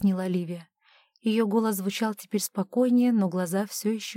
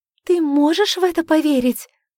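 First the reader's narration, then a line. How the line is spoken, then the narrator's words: Excited exclamation. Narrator (Russian): взволнованно воскликнула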